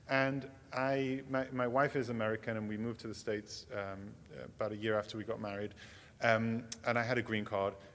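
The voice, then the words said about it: English accent. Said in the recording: “I grew up in England. ... This accent, I came by it honestly.”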